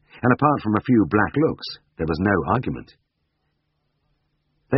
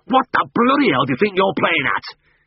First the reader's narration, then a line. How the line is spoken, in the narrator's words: He barked